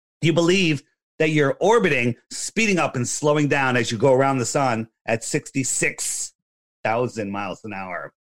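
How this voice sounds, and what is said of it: Hoarse, strained voice. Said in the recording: “Excuse me, losing my voice.”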